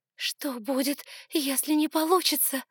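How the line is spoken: Breathed out. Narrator (Russian): выдохнула она

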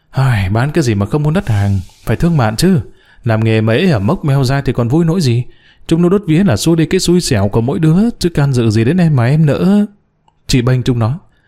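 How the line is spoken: Sighing shopkeeper. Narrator (Vietnamese): Chủ quán thở dài

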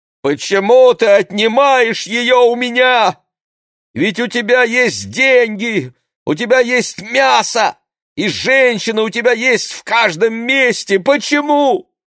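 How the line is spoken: Loud grief-stricken cry. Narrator (Russian): выкрикнул горестно и громко

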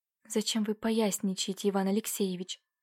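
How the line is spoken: Muffled whisper, young woman. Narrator (Russian): глухо прошептала девушка

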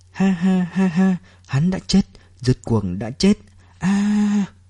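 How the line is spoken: Sudden laughter. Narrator (Vietnamese): Bà không ngừng lặp đi lặp lại để mình nhớ kỹ, đột nhiên bật cười

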